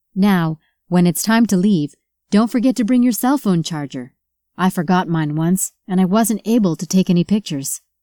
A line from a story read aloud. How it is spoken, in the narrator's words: Michelle said